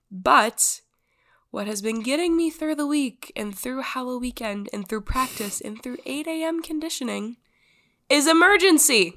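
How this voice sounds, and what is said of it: Raspy, sick-sounding voice. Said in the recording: “I am coughing a disgusting amount. My lungs burn. ... my raspy voice”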